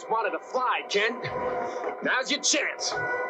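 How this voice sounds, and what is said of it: Heavy Brooklyn accent. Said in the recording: “some really horrible Brooklyn accent”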